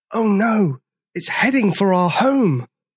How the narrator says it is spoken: gasped Sizo

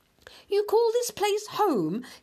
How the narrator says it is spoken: he cried

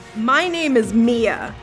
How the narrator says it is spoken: the woman snarled

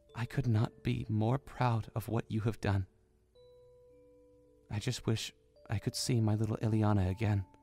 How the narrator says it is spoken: Zelda smiled sadly, whispering

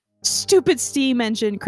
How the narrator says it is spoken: Cranky snarled

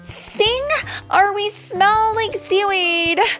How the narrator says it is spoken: yelled Disgust

